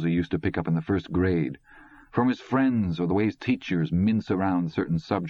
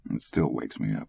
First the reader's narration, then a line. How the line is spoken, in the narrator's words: Dick mumbled